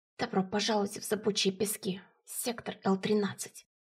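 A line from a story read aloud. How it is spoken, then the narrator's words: Unusually quiet. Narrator (Russian): Голос Тлефа звучал непривычно тихо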